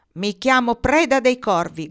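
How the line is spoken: Loud shouted reply. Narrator (Italian): gridò forte Nils di rimando

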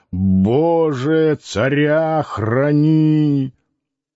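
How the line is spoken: Drunk old man growling. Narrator (Russian): Пожилой пьяный человек рычал

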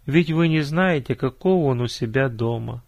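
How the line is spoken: Sighing reply. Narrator (Russian): вздохнула та в ответ

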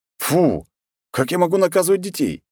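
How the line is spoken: Scoffing. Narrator (Russian): хмыкнул я

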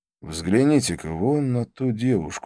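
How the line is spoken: Plain. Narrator (Russian): сказал я

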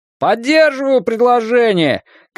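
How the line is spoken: Shouted from the back. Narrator (Russian): крикнул кто-то из задних рядов

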